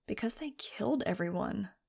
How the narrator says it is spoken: muttered

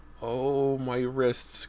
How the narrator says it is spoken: Cody moaned

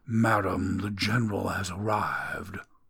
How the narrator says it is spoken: In a somber voice, the butler intoned

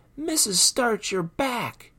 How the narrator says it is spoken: All the kids yelled

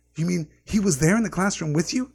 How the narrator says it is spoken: Harry gasped

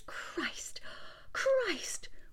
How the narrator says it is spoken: Her heart began to pound, and her fingers snatched at her hair, checking it, and she whispered

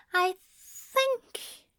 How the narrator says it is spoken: Aziraphale said, his voice tremulous

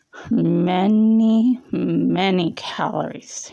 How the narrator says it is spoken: he slurred

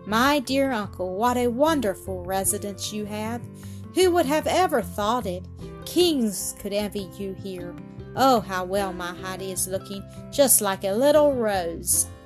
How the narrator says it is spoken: the grandmother exclaimed

